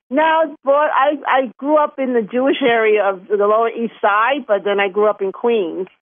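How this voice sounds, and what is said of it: New York accent. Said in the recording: “we love your accent ... Everybody thinks I have this great accent ... It's a Chinese New York accent, right?”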